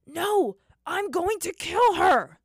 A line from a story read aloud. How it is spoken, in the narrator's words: roared, his voice blazing with hatred